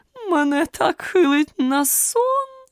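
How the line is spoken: Moaning. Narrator (Ukrainian): простогнала

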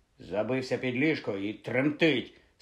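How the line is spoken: Angry. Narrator (Ukrainian): сердито озвався Рон

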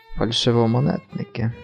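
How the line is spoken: Grumble. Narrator (Ukrainian): буркнув

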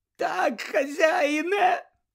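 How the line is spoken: Moaned. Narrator (Ukrainian): простогнав Червохвіст

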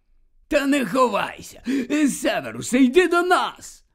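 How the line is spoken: Joyful call, hiccuping. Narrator (Ukrainian): Радісно гукнув слизоріг, починаючи вже гикати

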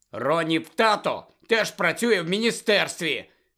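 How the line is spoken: Angry shout. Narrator (Ukrainian): сердито вигукнув Гаррі

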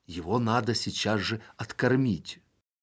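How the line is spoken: Whisper. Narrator (Russian): Князь шепнул своему первому министру

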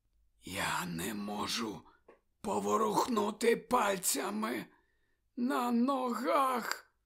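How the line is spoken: Whisper. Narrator (Ukrainian): прошепотів

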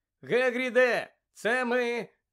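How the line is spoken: Shout. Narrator (Ukrainian): закричав Гаррі

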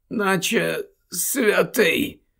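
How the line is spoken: Muttered. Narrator (Ukrainian): пробурмотів той

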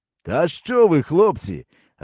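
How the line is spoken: Joyful, smiling. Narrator (Ukrainian): радісно усміхнувся

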